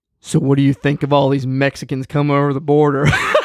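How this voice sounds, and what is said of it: Deep voice, thick country accent. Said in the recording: “deep voice, deeper than mine, and a thick country accent ... but louder than that”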